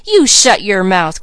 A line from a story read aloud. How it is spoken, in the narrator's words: cried James in rage